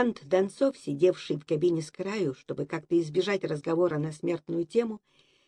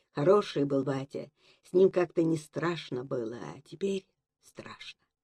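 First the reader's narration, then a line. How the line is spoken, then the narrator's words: Quiet, tearful. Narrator (Russian): помокревшие глаза, тихо сказал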